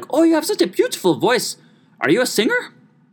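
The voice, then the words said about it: Imitated Gru-like accent. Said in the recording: “she kind of sounded like Gru from Despicable Me. So if, if my accent doesn't represent that, then that's on me.”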